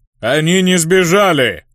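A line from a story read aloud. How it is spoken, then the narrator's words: Giant's bark. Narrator (Russian): рявкнул гигант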